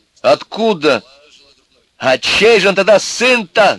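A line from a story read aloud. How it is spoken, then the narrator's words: Shouted. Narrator (Russian): заорал Костя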